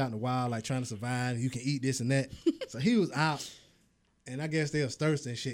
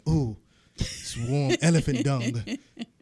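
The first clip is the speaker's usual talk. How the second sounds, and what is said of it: Imitates another person's voice. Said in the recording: “he got the accent.”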